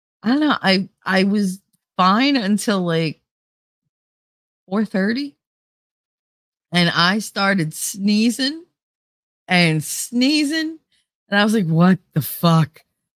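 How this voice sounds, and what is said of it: Nasal, congested voice. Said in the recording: “I can't breathe through my nose anyway, so I kind of sound nasally today”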